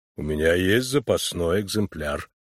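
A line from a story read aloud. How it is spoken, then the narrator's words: Calm. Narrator (Russian): спокойно произнес Финджи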